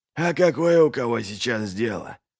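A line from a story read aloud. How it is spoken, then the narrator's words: Grumble. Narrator (Russian): проворчал Пайк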